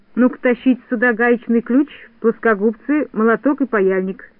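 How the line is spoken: Plain. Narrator (Russian): сказал Винтик малышкам

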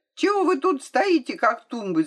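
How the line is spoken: Shout. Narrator (Russian): закричал он

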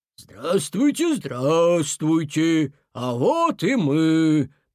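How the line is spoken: Deep bass voice. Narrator (Russian): пробасил Зверь Мороз

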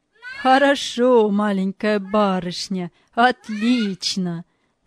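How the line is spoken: Laughing. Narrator (Russian): смеялся Галлер

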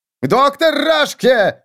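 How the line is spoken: Panicked howl. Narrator (Russian): взвыл на грани паники Виссен

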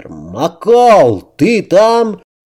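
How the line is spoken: Shouted into microphone. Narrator (Russian): прокричал в микрофон Грейсон

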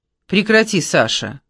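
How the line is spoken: Sighing, unusually solemn. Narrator (Russian): глубоко вздохнула и сказала необычайно торжественно

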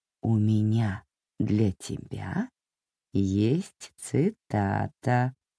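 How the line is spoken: Creaky voice. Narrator (Russian): проскрипела мэма

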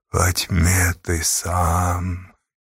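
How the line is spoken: Strange earthy voice, strained. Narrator (Russian): чужим земляным голосом с трудом произнес Богданка

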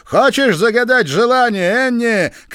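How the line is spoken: Shout. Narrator (Russian): крикнул Пол

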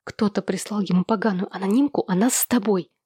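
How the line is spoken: Feverish whisper. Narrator (Russian): лихорадочным шепотом сообщила она

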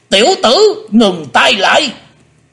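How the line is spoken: Shouted. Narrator (Vietnamese): Hải Âu quái khách quát lên

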